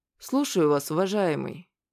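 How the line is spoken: Weary. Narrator (Russian): устало сказал мне клерк

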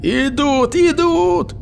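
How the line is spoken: Shouting. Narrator (Russian): закричал Басарейн

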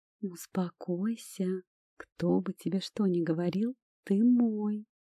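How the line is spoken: Tender whisper. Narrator (Russian): прошептала на ушко эльфу

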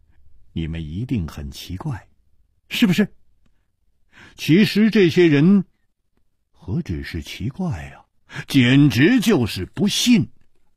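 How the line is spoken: Light laugh. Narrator (Chinese): 楚留香笑了笑

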